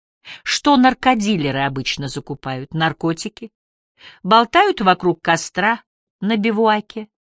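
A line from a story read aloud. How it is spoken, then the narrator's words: Plain. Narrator (Russian): сказал Бубба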